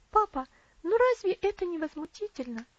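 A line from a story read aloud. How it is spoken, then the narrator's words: Exclaiming. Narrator (Russian): воскликнула Элси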